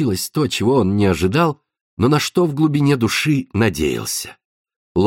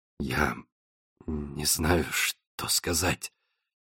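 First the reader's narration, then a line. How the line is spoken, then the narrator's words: Quiet. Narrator (Russian): тихо произнес Лоран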